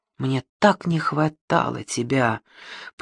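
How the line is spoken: Whispered. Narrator (Russian): прошептал он

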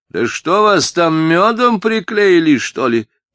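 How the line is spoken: Shout. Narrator (Russian): крикнула она

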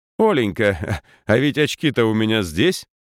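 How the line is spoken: Old man's joyful announcement. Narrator (Russian): радостно сообщил батюшка

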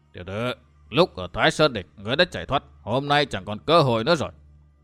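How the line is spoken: Stern voice. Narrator (Vietnamese): Ngoại tổng quản bằng một giọng nghiêm nghị nói

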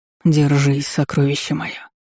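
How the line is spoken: Silent whisper. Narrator (Russian): прошептал беззвучно

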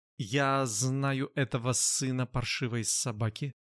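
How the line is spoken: Quiet. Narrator (Russian): негромко сказал Элиуд

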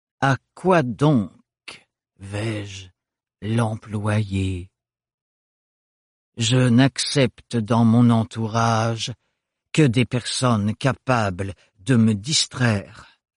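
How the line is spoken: Slow. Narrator (French): dit-il lentement

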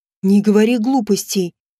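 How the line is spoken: Sudden angry reply. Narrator (Russian): внезапно зло ответил он

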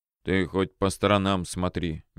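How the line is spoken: Displeased mumble. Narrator (Russian): недовольно пробурчал

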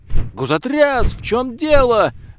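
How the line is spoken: Yelling. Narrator (Russian): вопил

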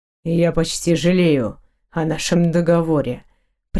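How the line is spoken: Gloomy, through gritted teeth. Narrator (Russian): процедил он мрачно

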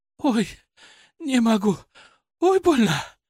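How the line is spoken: Breathless, in pain. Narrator (Russian): выдохнула она

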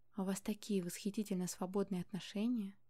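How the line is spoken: Smiling whisper. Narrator (Russian): Прошептал и улыбнулся

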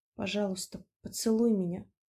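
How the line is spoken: Hesitant whisper. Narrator (Russian): неуверенно прошептала она

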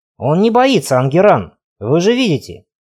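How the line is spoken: Snort. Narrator (Russian): фыркнул Ги де Нагаре

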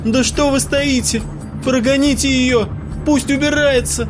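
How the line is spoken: Hysterical shout. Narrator (Russian): истерично выкрикнула Ксюша

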